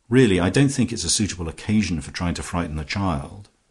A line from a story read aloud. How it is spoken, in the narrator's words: Twyford said sharply